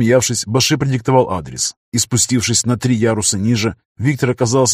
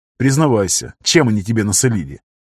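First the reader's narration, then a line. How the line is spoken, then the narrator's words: Chuckling. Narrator (Russian): Баши хохотнул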